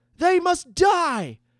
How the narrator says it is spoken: shouted a young mage, his hatred beyond his years

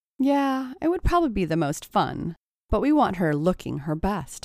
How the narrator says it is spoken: agreed Stacy

